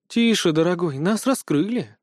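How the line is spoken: Sad sigh. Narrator (Russian): с грустью вздохнула Олимпия

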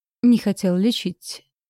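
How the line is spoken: Muffled exhale, dragon. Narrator (Russian): глухо выдохнул дракон

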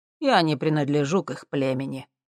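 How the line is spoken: Calm. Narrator (Russian): спокойно произнес Диомедес

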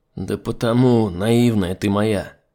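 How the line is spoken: Sighing. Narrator (Russian): вздохнул Олег

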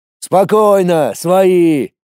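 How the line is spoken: Shouting in chorus. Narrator (Russian): Хором закричали мои

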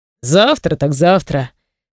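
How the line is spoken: Calm reply. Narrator (Russian): Спокойно отвечает

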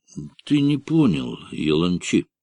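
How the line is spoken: Soft objection. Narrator (Russian): мягко возразил Неджмеддин

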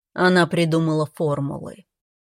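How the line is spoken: Dull voice, father. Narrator (Russian): потускневшим голосом продолжал отец

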